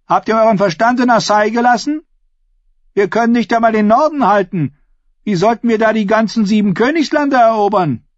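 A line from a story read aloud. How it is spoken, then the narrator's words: Called out. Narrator (German): rief Ascher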